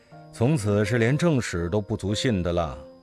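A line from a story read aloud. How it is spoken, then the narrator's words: Sighing. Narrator (Chinese): 不禁叹说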